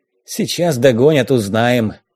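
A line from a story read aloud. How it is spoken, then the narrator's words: Grumble. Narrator (Russian): пробурчал Якоб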